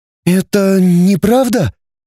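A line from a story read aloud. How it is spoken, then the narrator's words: Frightened, confused. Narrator (Russian): испуганно-растерянно проговорила Светлана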